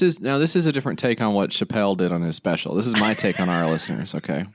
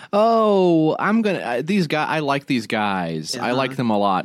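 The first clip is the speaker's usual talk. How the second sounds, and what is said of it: Mocking impression of podcast listeners. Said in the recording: “quick impression of our listeners”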